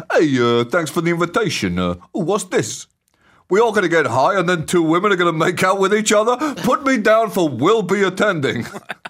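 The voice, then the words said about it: Put-on American accent, Barney Rubble-ish. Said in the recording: “Strong accent work ... It was a bit like seamless, Barney Rubble ... it was a little Barney Rubble-ish. It definitely wasn't anywhere near Washington State. It had a whiff of Jersey about it with, I guess, with a kind of whiff of Gold Rush era.”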